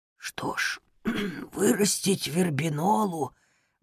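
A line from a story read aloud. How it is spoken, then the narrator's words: Whispered between coughs. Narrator (Russian): базилик прошептал ответ между приступами кашля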